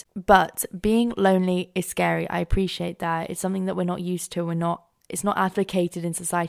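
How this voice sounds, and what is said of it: Rough, hoarse voice from a cold. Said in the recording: “my voice is becoming more and more rougher, and like I've been smoking for about 5,000 years ... I've just got a cold ... I keep coughing”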